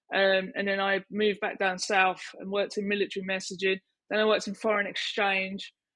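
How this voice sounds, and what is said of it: Strong Essex / East End accent. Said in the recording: “grew up on Canvey Island in Essex ... originally East End people, so I have a really bad accent.”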